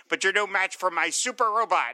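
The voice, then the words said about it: Cartoon villain character voice. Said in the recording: “doing my penguin voice.”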